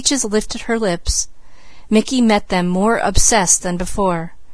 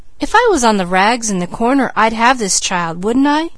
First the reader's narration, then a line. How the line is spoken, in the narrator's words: scoffed Peaches